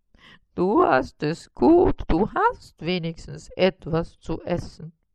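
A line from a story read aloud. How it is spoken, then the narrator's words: Whining lament. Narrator (German): jammerte Karl Heinz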